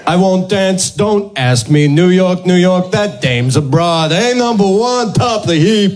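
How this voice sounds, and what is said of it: Exaggerated New York accent impression. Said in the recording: “That was like an impression ... New York-y accents”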